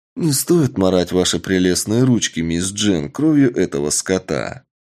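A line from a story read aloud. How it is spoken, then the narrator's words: Calm. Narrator (Russian): Спокойно отвечаю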